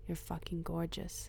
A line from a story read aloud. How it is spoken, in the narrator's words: whispered in my ear